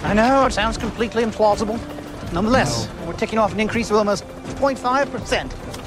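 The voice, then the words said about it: Bad fake English accent. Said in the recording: “Doing the worst English accent. It's a horrible accent. ... it's bad. It's very bad.”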